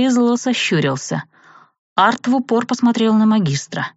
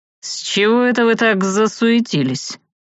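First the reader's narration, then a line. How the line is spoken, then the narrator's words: Snorting. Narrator (Russian): хмыкнул Савелий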